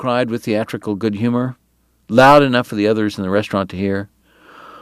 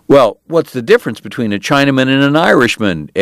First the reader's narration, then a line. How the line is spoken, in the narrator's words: Eddie asked, shouting above the laughter